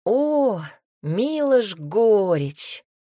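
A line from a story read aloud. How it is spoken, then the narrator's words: Drawn-out. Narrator (Russian): протянул он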